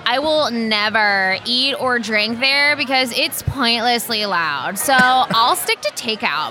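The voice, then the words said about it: Put-on country valley girl accent. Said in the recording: “I couldn't even tell you what accent that was... It was like a country valley girl.”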